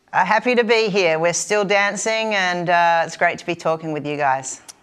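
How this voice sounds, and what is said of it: Kentucky accent. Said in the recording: “this accent, this famous Kentucky accent”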